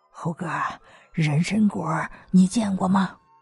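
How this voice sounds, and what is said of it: Speaking quietly, hushed voice. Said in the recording (Chinese): “小声的说道”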